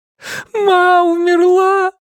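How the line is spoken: Sobbing. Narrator (Russian): прорыдал я

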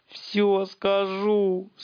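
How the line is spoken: Sobbed, one-legged man. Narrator (Russian): всхлипнул одноногий

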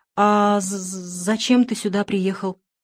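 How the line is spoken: Fearful stammering question. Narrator (Russian): заикаясь от страха, спросил Шура

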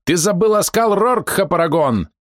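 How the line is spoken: Shouted. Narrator (Russian): выкрикнул

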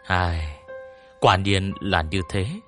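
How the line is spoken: Calm sigh. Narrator (Vietnamese): thản nhiên thở dài nói

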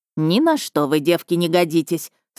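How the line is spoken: Plain. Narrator (Russian): сказала пани Мария

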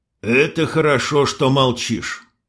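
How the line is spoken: Sighing sultan. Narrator (Russian): вздохнул султан

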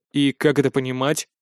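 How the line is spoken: Stern question. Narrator (Russian): строго спросил

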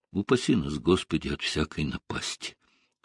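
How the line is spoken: Whisper. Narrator (Russian): сказала она шепотом

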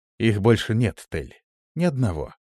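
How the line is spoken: Soft, smiling. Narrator (Russian): мягко улыбнулся я

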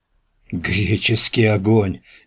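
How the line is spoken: Weak hoarse wheeze. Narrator (Russian): бессильно прохрипел Радомысл

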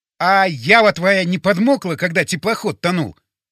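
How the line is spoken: Near shout. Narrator (Russian): почти закричал

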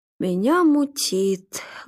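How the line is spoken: Sad. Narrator (Russian): грустно сказал Глеб

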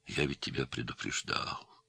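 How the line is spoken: Sad old man. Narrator (Russian): печально сказал старик

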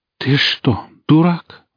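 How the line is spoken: Breathed out finally. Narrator (Russian): выдохнула она наконец

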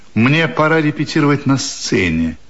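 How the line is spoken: Icy tone. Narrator (Russian): говорит он ледяным тоном

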